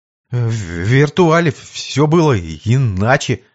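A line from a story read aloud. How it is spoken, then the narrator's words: Stammering young man. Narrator (Russian): заикаясь, ответил парень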